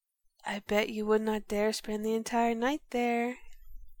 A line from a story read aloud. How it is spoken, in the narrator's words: smiled ... whispered